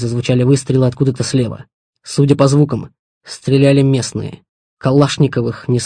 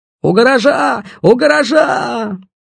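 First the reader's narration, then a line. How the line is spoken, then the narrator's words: Young voice yelling. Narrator (Russian): Орал молодой голос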